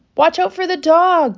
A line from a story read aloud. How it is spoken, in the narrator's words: cried the sheep